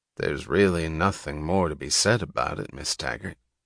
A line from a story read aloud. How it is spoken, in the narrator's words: he said quietly